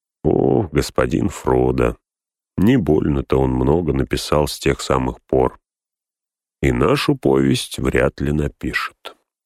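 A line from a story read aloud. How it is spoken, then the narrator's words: Quiet speech. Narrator (Russian): Сэм тихо сказал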